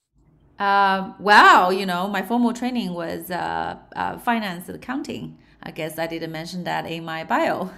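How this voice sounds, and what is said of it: Light Australian accent. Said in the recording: “You probably can pick up some of my Aussie accent from here and there.”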